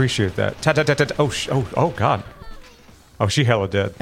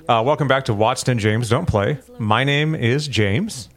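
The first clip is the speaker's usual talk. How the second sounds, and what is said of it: Announcer-style radio voice. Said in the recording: “that thing you do where you use the radio voice and actually do an intro for the show”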